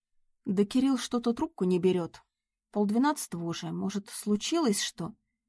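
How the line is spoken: Uncertain reply. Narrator (Russian): Неуверенно ответила Надя

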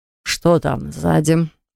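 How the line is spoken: Grumbled. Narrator (Russian): проворчал

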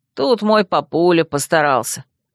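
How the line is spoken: Snide, grinning. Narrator (Russian): оскалился и ехидно добавил

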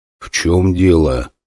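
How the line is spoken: Quiet question. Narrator (Russian): спросил я тихо

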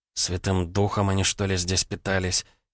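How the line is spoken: Displeased drowsy mumble. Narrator (Russian): Недовольно пробормотала Алиса, проваливаясь в тревожный сон

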